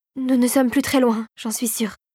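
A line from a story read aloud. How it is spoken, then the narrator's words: Trembling voice. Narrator (French): dit-elle d'une voix tremblotante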